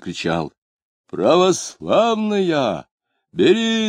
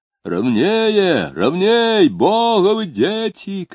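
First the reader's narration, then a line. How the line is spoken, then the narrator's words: Deep chest-voice shout, excited, anxious. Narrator (Russian): кричал делатель пивных бутылок грудным голосом, восторженно и тревожно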